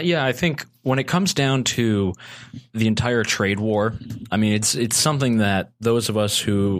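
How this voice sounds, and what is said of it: Usual voice. Nothing is said of it.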